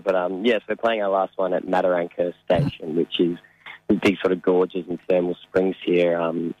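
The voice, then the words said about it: Slightly hoarse voice. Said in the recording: “my voice is a little hoarse now ... a bit toast now”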